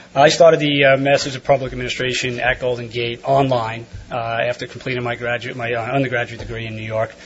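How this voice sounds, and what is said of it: New York accent. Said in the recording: “from New York, so if I have an accent”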